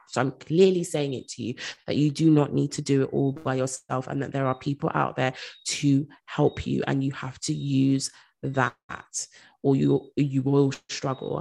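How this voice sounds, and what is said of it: Stern, firm tone. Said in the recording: “hear the sternness in my voice”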